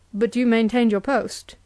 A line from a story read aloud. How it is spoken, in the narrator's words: said the Templar